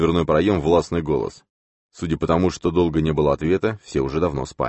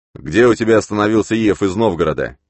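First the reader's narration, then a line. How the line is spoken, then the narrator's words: Angry question. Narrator (Russian): сердито спросил пришелец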